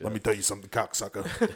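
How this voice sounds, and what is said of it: Joey Diaz impression. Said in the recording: “Joey Diaz style ... That was a really good impression.”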